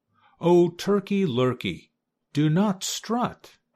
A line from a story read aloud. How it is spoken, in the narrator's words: cried Goosey Lucy